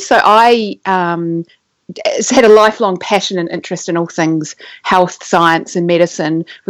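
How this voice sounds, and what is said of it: New Zealand accent. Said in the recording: “I grew up in New Zealand, which is where my accent comes from.”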